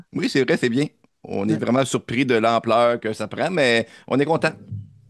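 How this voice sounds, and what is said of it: Regional French accent. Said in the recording (French): “j'adore votre accent, c'est excellent.”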